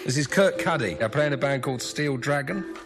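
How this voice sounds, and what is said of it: Weak put-on English accent. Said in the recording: “your English accent is almost as lame as your guitar playing”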